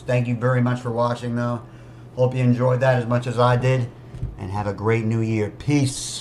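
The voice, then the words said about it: Strained, worn-out voice. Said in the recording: “my voice is really gone. I just blew it out with that performance.”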